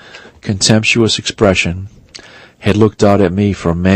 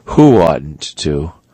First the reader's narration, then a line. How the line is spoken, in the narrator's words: inquired Daisley coldly